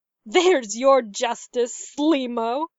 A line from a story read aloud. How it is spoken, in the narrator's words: she snarled